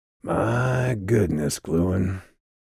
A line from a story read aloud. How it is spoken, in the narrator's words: he drawled, his voice rough